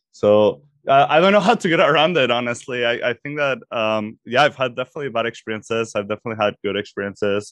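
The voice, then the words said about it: Mexican Spanish accent in English. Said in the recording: “So they associated accents with kind of like being smart ... Spanish is also an interesting one. There's not that many Mexicans in Canada ... Canadians don't assume that my accent has the same implications”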